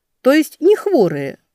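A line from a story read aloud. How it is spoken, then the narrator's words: Joyful. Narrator (Russian): радостно закивала Велька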